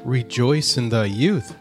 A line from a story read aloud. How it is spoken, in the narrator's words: said the sunbeam